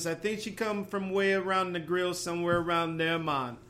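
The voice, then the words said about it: Put-on Jamaican accent. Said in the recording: “about as good as a Jamaican accent as I can give”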